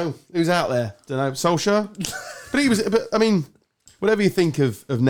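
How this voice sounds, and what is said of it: Usual voice. Nothing is said of it.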